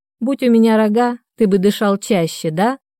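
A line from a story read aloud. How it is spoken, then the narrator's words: Laughing. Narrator (Russian): Рассмеялась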